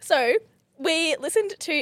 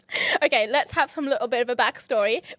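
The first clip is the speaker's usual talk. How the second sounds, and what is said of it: Put-on Irish accent. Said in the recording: “you just went Irish”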